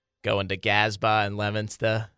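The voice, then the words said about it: Put-on Boston accent. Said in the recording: “My Boston accent is better than that, I promise. ... There it is. That's a little better.”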